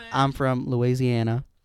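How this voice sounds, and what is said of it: Imperfect put-on Southern US accent. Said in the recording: “A southern accent... See, it doesn't sound right... You sound like an Aussie doing it, but it's almost there.”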